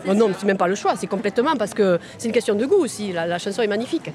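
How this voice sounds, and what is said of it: Southern French accent. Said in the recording (French): “il y a l'accent, là ... Ah ben si, il y a l'accent ... L'accent du sud”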